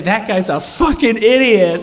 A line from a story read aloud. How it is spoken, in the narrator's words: laughed, and she loved it, and she would say